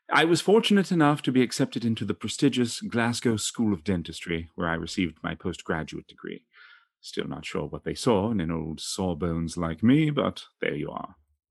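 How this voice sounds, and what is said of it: Affected distinguished foreign accent. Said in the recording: “Did they award that accent as well? I thought your people came from Ypsilanti. ... I love the way ... sounds. It's very distinguished.”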